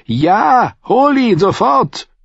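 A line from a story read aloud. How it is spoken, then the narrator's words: Call. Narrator (German): rief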